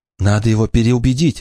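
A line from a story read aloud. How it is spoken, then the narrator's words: Exclaiming. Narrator (Russian): воскликнула она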